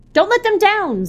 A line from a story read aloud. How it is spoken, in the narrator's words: Zilal cried